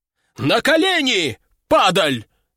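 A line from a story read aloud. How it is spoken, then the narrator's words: Shout. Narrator (Russian): закричал он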